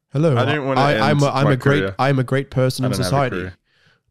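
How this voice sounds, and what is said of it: Mock ethnic impression voice. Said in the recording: “my impression of an African-American”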